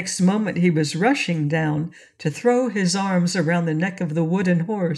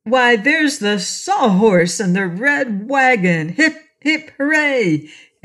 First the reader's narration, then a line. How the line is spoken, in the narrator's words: he suddenly exclaimed